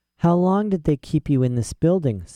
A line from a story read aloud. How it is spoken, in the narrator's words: said Mrs